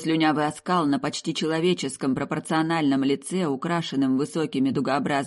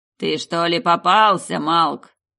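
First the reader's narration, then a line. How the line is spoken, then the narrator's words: Booming voice. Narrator (Russian): прогремел голос Архонта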